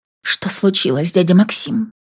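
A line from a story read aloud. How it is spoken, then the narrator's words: Fearful whisper. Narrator (Russian): В страхе прошептала я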